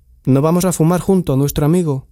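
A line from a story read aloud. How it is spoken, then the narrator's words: Plain question. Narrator (Spanish): preguntó Dula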